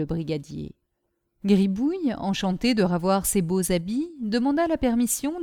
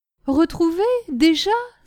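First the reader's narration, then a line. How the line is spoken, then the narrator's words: Joyful exclamation. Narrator (French): s'écria Caroline avec joie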